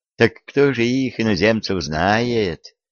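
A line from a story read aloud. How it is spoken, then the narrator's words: Rueful sigh. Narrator (Russian): сокрушенно вздохнул боярин Жадин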